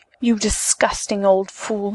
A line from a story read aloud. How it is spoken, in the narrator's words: she hissed